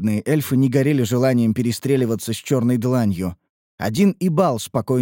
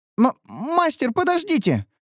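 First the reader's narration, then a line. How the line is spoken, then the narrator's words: Squeak. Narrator (Russian): пискнула Лейна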